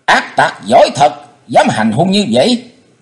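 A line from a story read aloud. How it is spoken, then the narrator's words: Angry scolding shout. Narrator (Vietnamese): tiếng giận dữ quát mắng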